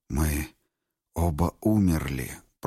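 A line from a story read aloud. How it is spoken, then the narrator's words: Whisper. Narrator (Russian): прошептал он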